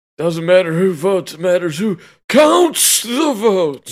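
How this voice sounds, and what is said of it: Sleepy imitation of another person's voice. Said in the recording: “That was a good impression. ... I felt like I was listening to Joe. ... Caught a little sleeping in there.”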